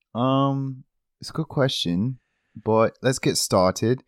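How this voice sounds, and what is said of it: Put-on British accent. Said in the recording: “Why are we talking in a British accent”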